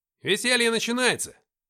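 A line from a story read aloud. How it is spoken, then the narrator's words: Soldier shouting. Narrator (Russian): закричал кто-то из бойцов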